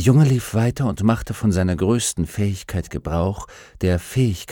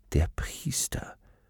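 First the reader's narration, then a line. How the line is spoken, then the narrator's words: Soft. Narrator (German): sagte Baltimus leise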